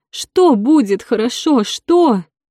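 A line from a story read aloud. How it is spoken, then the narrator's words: Sobbing. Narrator (Russian): Лизавета рыдала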